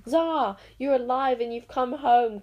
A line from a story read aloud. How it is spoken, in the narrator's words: cried Inkanzo, the great enchanter